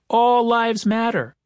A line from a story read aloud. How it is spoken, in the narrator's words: Someone in the crowd shouted